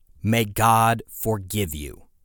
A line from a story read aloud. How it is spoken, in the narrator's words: he said